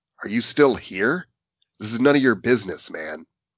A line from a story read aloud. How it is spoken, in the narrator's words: said in an annoyed tone